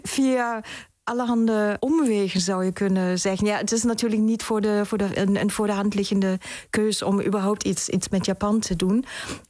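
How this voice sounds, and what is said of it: German accent speaking Dutch. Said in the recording (Dutch): “ik bespeur een Duits accent... Dat klopt, ja. Ik ben in Duitsland geboren en in Oost-Berlijn opgegroeid.”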